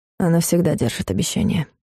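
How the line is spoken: Quiet answer. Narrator (Russian): тихо ответил Клайв

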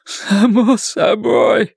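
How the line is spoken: Hoarse, then crying. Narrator (Russian): прохрипел Ллойд и заплакал

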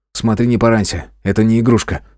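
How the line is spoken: Amused snort. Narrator (Russian): хмыкнул я

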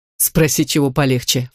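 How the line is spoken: Snorting. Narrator (Russian): фыркнула Грин

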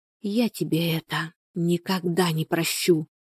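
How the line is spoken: Whispering. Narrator (Russian): прошептала Шура

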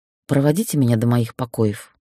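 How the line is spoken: Quiet. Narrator (Russian): негромко сказала

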